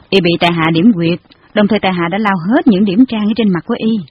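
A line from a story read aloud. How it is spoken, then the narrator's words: Cold reply. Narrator (Vietnamese): Hàn công tử lạnh lùng đáp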